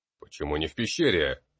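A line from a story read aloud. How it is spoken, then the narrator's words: Stern question. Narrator (Russian): строго спросил я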